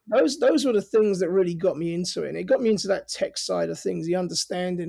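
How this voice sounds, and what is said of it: Working-class North London accent. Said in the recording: “my accent is, you know, I'm from North London. I was born and raised in London... I never lost my accent... I'm the downstairs of Downton Abbey as opposed to the upstairs of Downton Abbey”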